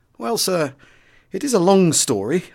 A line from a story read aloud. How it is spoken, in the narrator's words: I replied hesitantly, for I was playing a tricky hand